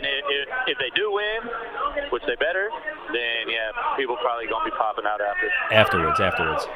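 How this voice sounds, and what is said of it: American country accent. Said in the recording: “I love his country accent.”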